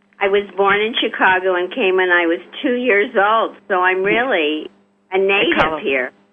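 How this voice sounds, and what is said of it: New York-sounding accent. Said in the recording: “You really do sound like you have a New York accent”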